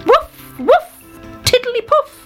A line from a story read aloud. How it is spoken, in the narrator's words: he shouted